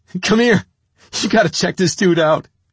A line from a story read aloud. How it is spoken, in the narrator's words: I was laughing so hard, I called to Nicky